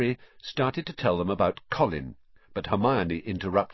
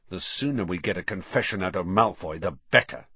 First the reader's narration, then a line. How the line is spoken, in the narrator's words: snarled Ron